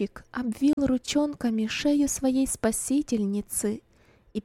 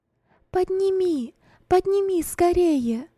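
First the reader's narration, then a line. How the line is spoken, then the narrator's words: Urgent shout. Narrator (Russian): крикнула Роза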